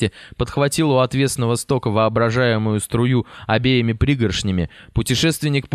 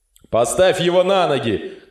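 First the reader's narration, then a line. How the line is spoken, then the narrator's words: Shouted. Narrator (Russian): крикнул офицер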